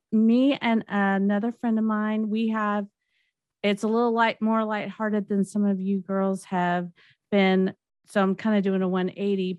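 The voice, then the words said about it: Southern American Alabama accent. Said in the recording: “I'm from Huntsville, Alabama, if you didn't notice from the accent.”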